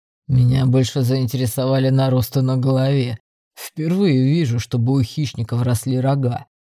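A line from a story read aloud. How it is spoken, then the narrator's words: Booming drone. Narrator (Russian): прогудел Торт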